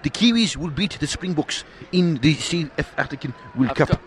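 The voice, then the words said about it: Put-on New Zealand accent, slightly South African. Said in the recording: “This is a good New Zealand accent. ... I've got to say, you went a little bit South African.”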